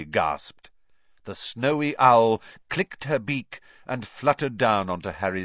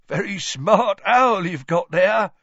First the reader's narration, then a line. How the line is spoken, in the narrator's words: chuckled Tom